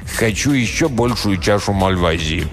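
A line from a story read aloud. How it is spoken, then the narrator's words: Commanding tone. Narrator (Russian): Он повелительным тоном проговорил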